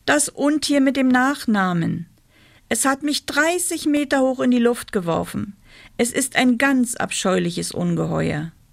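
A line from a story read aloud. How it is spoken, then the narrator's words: Calling out. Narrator (German): rief er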